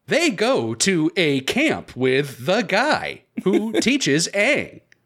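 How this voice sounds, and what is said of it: Imitation of synthetic AI voice. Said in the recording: “with that fucking terrible TikTok AI voice ... That's my impression of the thing ... That's pretty good”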